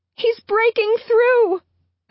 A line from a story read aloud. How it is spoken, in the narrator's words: screams